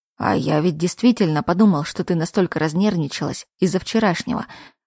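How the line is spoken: Snorting, amused. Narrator (Russian): хмыкнул Кайл

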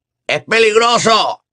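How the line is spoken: Shouted by a wizard. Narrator (Spanish): gritó otro mago

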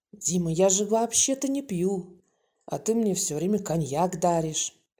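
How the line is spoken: Tipsy whisper in ear. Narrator (Russian): Заметно расслабившийся от алкоголя, он прошептал Брагинскому на ухо

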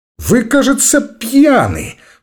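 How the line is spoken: Disgusted exclamation. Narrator (Russian): брезгливо воскликнула Раиса

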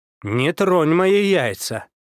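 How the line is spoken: Loud, insistent exclamation. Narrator (Russian): воскликнул, со всей убедительностью громко попросил

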